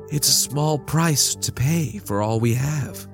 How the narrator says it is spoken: she sighed

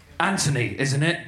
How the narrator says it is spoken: she gruffly whispered

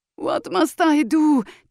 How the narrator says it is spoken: Tijon cried

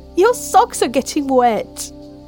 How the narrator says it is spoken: Mel laughed

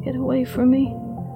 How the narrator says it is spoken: Stephanie begged weakly, pathetic

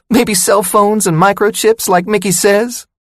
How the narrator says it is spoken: She squeaked her voice like the mouse in the cartoon

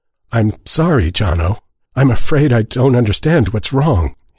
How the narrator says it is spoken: he said, hating the quaver in his voice

